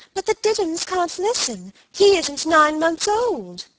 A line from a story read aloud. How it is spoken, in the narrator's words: pleaded